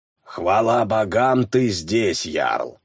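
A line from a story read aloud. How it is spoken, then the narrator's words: Grumbling. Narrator (Russian): проворчала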